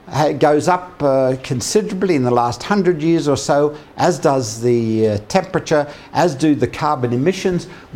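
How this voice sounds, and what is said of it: Non-English accent. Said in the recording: “Some of you may have noticed from my accent that I'm not English”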